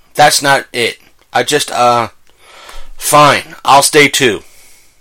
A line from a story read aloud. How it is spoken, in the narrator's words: stammered